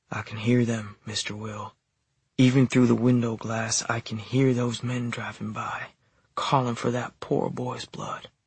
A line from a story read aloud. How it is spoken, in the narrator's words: Angelina's eyes shone scared as she whispered